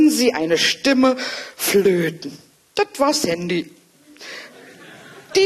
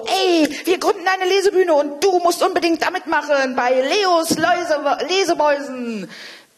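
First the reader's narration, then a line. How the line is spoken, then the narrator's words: Calling out. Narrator (German): rief Leo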